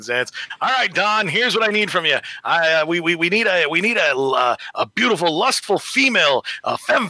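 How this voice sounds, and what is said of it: Stan Lee impression. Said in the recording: “your best Stan Lee impression, because we love your Stan Lee impression”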